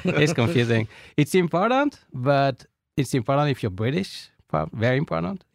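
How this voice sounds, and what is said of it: French-accented English. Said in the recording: “my French accent”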